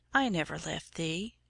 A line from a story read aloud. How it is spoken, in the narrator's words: his voice said quietly